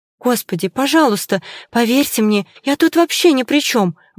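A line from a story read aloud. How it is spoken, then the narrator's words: Frightened blurt. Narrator (Russian): выпалила она, испуганно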